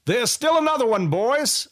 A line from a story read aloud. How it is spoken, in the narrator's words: a rider yelled to the rest